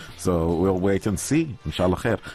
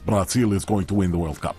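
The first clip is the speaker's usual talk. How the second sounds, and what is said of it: Put-on Brazilian accent. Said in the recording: “Why do you give him an accent? ... Because he's from Brazil.”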